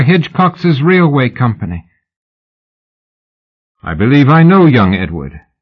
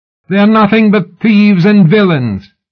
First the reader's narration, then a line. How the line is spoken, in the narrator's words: Sybil shouted alertly